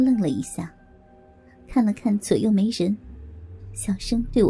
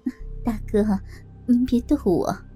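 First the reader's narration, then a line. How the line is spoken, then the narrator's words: Awkward laughing. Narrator (Chinese): 只好笑着说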